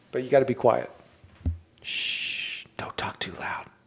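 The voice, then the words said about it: Whispering. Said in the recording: “Why do you think I'm whispering?”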